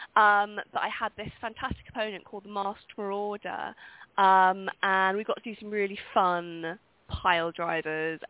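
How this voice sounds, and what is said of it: Speaks with a distinctive accent. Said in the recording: “I love your accent, by the way. That's an amazing accent. I love that accent.”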